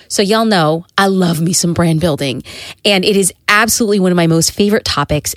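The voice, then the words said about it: Congested, nasal voice from cold. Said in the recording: “I have a bit of a cold ... my nasal congestion”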